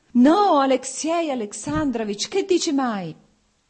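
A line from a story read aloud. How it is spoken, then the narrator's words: Anguished shout. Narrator (Italian): gridò Oblonsky e la sofferenza si espresse sul suo viso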